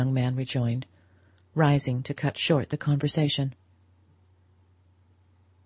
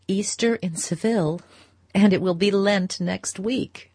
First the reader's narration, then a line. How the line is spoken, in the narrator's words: she laughed